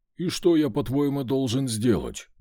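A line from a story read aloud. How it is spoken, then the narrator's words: Gruff mutter. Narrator (Russian): буркнул пес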